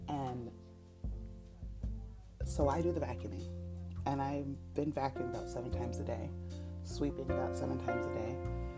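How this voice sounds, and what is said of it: Whispering. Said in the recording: “I'm also trying to whisper so I don't wake up my little”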